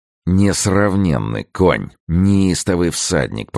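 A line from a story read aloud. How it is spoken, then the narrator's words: Muttered through teeth. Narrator (Russian): пробурчал капитан сквозь зубы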